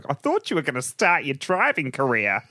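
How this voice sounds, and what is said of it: Failed Australian accent, Muppet-like voice. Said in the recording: “That's not a that's not an Australian accent. ... Sounds like a Muppet.”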